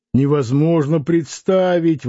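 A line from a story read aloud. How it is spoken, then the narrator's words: Exclaimed laughing. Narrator (Russian): воскликнул Митрофанов, смеясь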